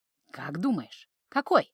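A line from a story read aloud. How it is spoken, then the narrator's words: Whisper in ear. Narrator (Russian): прошептал ей эльф на ухо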